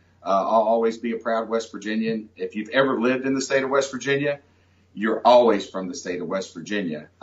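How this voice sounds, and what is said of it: Southern West Virginia twang. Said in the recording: “I still have my Southern West Virginia twang.”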